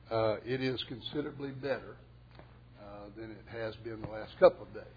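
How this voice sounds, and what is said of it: Slightly hoarse voice. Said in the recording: “I'm a little bit hoarse today ... if my voice starts to go”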